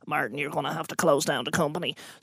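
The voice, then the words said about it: Imitates another person's voice. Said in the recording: “it's a good impression.”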